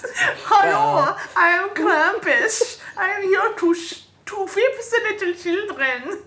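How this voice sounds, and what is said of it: Bad put-on German accent. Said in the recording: “my bad German accents”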